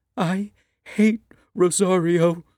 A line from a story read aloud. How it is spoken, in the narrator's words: the little girl wails